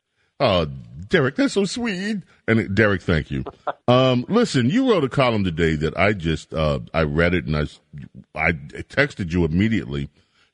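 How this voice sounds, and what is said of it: Rich, resonant radio voice. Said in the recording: “how just awesome of a radio voice you have ... you got the pipes”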